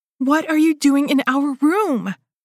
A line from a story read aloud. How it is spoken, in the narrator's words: I shouted